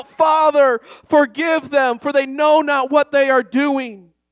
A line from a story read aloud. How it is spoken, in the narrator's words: our Lord hung on that cross and he cried out